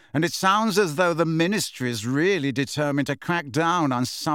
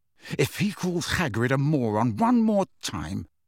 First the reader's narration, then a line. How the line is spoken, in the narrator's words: said Harry through gritted teeth